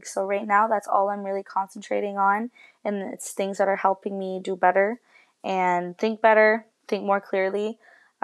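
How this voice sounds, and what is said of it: Subdued, low-energy tone. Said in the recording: “the tone of my voice is so, like, I don't know. I feel like I'm not upbeat.”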